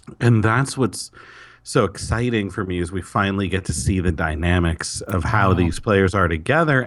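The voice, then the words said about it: Hoarse, fading voice. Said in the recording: “excuse me, I'm losing my voice.”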